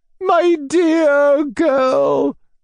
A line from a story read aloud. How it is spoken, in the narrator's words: she wailed